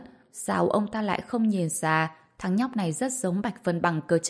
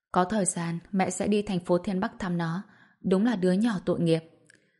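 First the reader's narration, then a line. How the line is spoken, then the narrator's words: Gentle sighing. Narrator (Vietnamese): Ngô Quế Hương cũng thở dài và nhẹ nhàng nói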